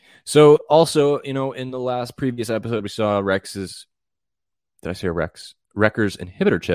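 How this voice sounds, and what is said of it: Usual voice. Nothing is said of it.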